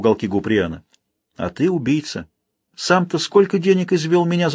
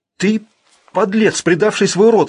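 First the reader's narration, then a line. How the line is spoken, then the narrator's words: Frightened utterance. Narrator (Russian): испуганно вымолвил Гриен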